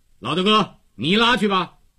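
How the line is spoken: Calling out. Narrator (Chinese): 叫着高个子

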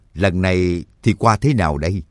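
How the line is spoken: Smiling. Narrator (Vietnamese): Cương Nhật Phổ Bạc mỉm cười nói

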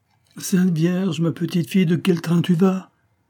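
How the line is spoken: Breathless exclamation. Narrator (French): s'écria Céline essoufflée

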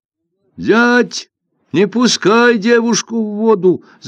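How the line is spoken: Shouted. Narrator (Russian): закричал Лин Джиян

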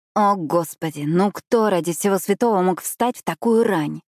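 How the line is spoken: Grumbling. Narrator (Russian): проворчала я

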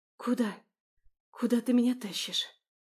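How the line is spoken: Breathless gasp. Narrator (Russian): Выдохнула я, пытаясь восстановить дыхание

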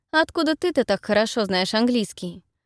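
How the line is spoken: Irritated question. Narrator (Russian): раздраженно спрашиваю я

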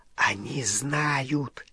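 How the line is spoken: Goblin whispering into ear. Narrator (Russian): зашептал крюкохват на ухо Гарри

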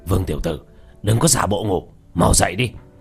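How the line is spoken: Annoyed low scolding. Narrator (Vietnamese): Hoa Thanh khuôn mặt khó chịu quát khẽ

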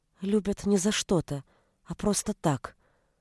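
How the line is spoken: Quiet. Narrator (Russian): сказала она тихо

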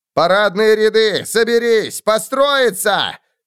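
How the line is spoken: Distant shout. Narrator (Russian): крикнул сержант откуда-то из-за трупов

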